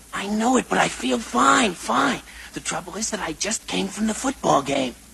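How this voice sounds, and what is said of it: Hoarse, strained, nearly lost voice. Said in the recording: “you certainly sound sick ... you shouted so much at that football game that you lost your voice ... A strained throat”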